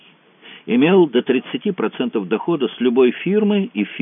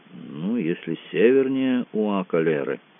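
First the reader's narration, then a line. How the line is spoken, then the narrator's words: Relieved mutter. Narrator (Russian): с видимым облегчением буркнул Кацуба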